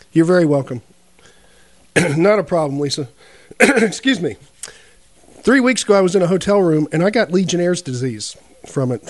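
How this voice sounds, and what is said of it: Voice not quite right, ailing. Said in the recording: “my voice has not been quite right, so y'all just bear with me. I've got my cough drops”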